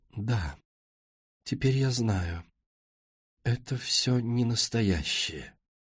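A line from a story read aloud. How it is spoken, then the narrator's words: Quiet, as if waking from trance. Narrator (Russian): словно очнувшись от транса, она тихо сказала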